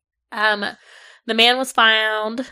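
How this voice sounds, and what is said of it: Strong Southern US accent. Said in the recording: “That's my southern accent coming out real bad right there. ... that was real bad.”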